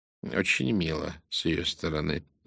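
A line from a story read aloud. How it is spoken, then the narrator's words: Dry remark. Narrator (Russian): сухо заметил Пуаро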